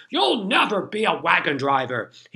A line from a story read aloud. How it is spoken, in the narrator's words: he shouted